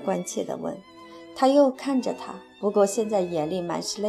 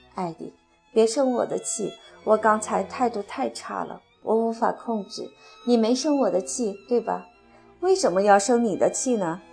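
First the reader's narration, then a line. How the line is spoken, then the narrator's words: Choked, sobbing apology. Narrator (Chinese): 他的眼泪又毫无征兆地掉下来，他哽咽着开始抽抽搭搭地道歉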